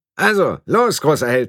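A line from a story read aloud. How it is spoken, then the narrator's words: Called out, male. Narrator (German): rief er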